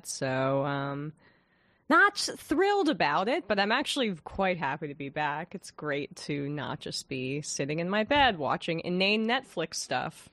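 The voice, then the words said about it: Slightly sick-sounding voice. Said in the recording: “you may be able to hear it in my voice slightly. I got pretty sick this whole weekend.”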